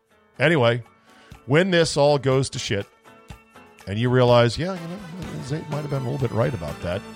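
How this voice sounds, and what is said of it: Strained, failing voice. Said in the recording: “I'm not yelling. I'm losing my voice”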